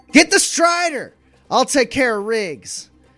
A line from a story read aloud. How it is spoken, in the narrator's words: shouts over her shoulder